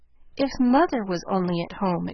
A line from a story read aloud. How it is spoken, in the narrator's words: exclaimed Jo, feeling that Washington was an immense way off